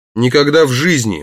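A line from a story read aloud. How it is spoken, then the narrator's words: Exclaimed. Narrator (Russian): воскликнул Барни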